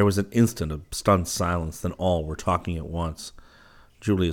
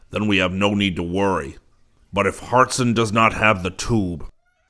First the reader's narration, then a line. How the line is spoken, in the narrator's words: Zircon bellowed